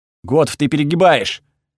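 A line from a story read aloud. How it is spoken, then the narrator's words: Barked. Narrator (Russian): рявкнул я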